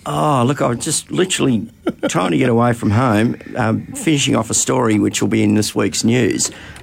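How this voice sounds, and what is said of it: Croaky, out of breath voice. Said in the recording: “I'm a bit croaky. ... you're out of breath.”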